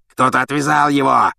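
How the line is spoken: Growling executioner. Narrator (Russian): рычал палач

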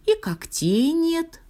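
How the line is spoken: Sighing. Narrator (Russian): вздохнула звезда

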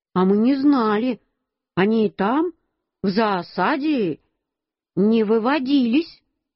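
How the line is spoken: Plain. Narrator (Russian): Любин папа сказал

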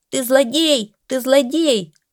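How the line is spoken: Bird suddenly shrieking. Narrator (Russian): скворец-то у него вдруг закричал

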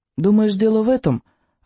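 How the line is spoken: Timid question. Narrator (Russian): робко спросил он

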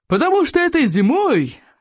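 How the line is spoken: Joyful booming. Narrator (Russian): радостно прогудел Плевака крикливый

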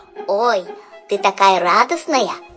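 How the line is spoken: Squeaky voice. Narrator (Russian): пропищал Жак

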